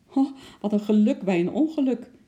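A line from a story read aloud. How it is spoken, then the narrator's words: Laughing clown. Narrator (Dutch): lachte de clown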